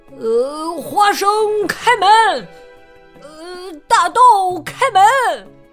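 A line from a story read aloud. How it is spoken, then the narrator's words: Loud shout. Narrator (Chinese): 他大叫着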